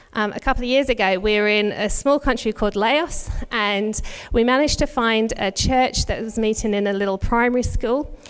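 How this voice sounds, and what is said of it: British English accent. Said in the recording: “If you can tell from my accent, I'm not originally from Australia. Our families are both back in the UK.”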